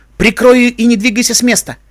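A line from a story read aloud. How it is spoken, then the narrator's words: Sharp frightened shout. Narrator (Russian): Испугавшись, что потерявшие контроль пленники затопчут брусничку, Твайлайт резко крикнула мужу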